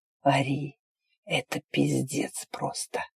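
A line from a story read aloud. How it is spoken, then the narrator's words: Hoarse rasp. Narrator (Russian): Прохрипел Арн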